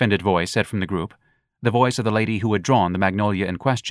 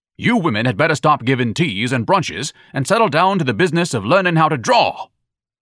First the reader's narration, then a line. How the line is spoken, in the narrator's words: Ignatius thundered